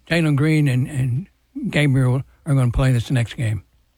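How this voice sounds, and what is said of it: Strained, fading voice. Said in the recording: “I don't know where my voice is. On Mondays, it just goes out of here.”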